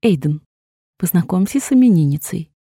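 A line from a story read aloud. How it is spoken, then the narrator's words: Soft. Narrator (Russian): мягко сказала Грейс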